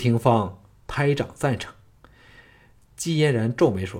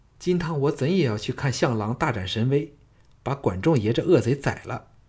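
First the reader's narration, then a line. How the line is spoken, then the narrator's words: Laughing. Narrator (Chinese): 赵志笑道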